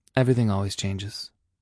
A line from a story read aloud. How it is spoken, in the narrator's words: he said quietly